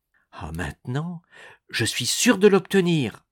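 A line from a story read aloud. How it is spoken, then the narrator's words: Exclaiming with love and hope. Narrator (French): s'écria Nicole, toute vibrante d'amour et d'espérance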